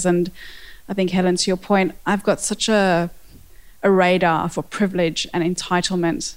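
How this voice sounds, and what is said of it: South African accent. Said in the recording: “I have a South African accent”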